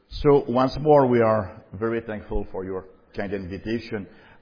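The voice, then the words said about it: Slight foreign accent. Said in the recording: “my little accent”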